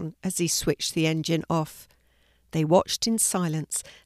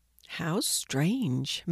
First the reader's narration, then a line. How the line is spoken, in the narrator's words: murmured Ella, transfixed by the unusual sight